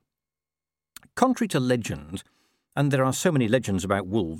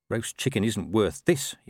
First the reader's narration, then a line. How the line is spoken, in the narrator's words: he muttered